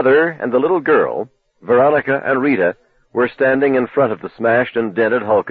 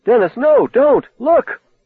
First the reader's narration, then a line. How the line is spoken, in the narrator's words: Lee suddenly cried out